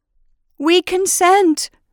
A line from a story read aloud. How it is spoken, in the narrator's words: cried all the people